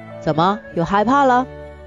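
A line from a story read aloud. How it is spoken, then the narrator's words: Cackling taunt. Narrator (Chinese): 那帮坏小子又开始咯咯咯地叫着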